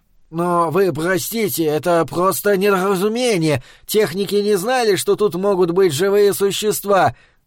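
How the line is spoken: Mumbling. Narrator (Russian): начал мямлить контролер

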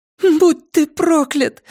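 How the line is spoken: Tearful exclamation. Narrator (Russian): воскликнула она со слезами в голосе

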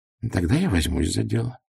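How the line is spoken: Quiet, small man. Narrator (Russian): тихо сказал человечек

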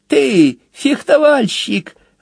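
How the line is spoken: Mocking whistle. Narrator (Russian): она насмешливо присвистнула

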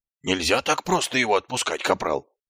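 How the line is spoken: Hissed. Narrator (Russian): прошипел Колон

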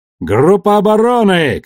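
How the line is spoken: Shout. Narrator (Russian): крикнул он

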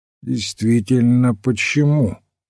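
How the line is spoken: Even-toned question. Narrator (Russian): ровным голосом переспросил Вендом

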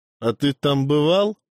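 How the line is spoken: Brothers' mocking snort. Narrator (Russian): хмыкнули братья

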